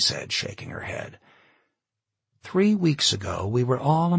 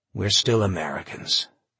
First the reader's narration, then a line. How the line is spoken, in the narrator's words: he sighed